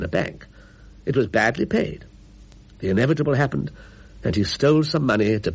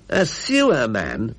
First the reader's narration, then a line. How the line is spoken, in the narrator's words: she said bitterly